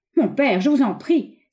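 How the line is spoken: Impatient exclamation. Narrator (French): s'écria le visiteur avec impatience

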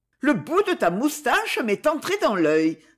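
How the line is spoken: Exclaiming. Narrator (French): s'écria-t-elle

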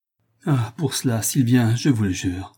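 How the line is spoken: Murmuring. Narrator (French): murmura Toinon

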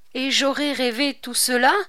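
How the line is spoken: Exclaiming. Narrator (French): s'écria Bussy

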